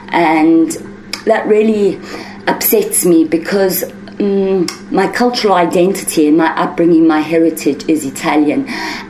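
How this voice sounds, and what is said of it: South African accent. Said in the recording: “why do you speak with a South African accent? ... I have somehow got an accent that doesn't fit my personality”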